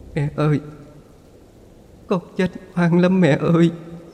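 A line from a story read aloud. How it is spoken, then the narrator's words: Sobbing. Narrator (Vietnamese): Phượng nức nở nói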